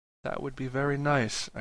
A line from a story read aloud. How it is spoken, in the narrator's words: said quietly